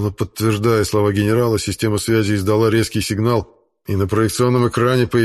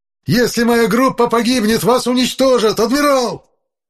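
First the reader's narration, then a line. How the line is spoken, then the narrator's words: Spluttering furious yell. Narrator (Russian): Брызгая слюной, заорал безопасник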